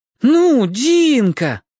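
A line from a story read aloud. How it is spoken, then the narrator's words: Two voices wailing. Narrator (Russian): взвыли Зорко и Лен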